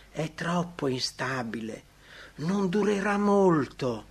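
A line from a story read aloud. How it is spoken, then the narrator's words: Whispering. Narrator (Italian): Metteranno in dubbio la sincerità del suo pentimento sussurrando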